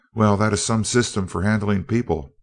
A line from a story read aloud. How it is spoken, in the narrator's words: exclaimed Seaton